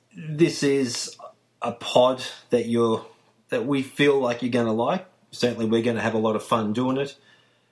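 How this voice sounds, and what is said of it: Australian accent. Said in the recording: “you can probably tell from my accents ... the first Spurs pod that's going to be coming out of Australia ... all the way down under”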